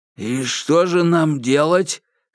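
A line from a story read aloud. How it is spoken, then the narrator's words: Hoarse question. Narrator (Russian): хрипло спросил Бак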